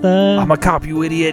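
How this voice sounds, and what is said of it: Badly imitated movie-character accent. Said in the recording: “that accent is so, so bad.”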